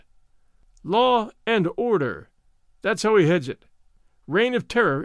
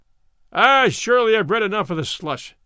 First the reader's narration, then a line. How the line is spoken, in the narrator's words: cried the chairman